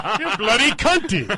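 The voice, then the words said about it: Put-on English-Australian accent. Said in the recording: “do you have to do it with the English accent? ... I was a little Australian, maybe.”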